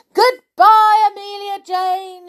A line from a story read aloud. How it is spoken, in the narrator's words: shouted the toys